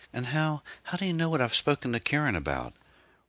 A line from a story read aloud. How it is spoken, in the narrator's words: Rankin chuckled vacantly